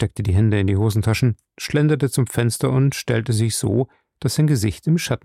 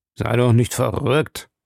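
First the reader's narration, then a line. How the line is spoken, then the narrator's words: Rough voice. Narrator (German): sagte rau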